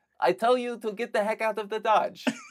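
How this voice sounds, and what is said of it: Poor imitation of a TV character's accent. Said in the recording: “did you nail down your NoHo Hank accent yet? ... NoHo Hank ... Character. ... No, that's not good. That's not good. I mean, that's like the best costume I could do.”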